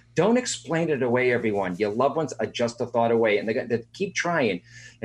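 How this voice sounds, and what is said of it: Boston Dorchester accent. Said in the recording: “you haven't lost that beautiful Dorchester accent”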